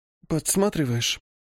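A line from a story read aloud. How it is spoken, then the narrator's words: Slightly hoarse, sleepy. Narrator (Russian): Чуть хрипловато со сна поинтересовалась она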